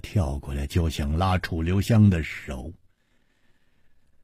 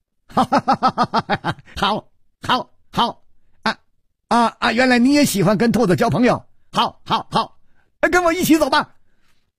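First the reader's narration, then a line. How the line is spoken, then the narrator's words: Laughing loudly. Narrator (Chinese): 薛宝宝……大笑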